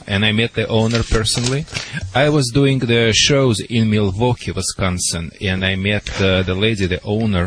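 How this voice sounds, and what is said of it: Russian-accented English. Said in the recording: “a lot of Europeans lives there, so I guess they understand more my accent ... the world-famous Russian dog wizard”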